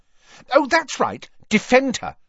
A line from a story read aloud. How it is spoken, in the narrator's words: snapped Ginny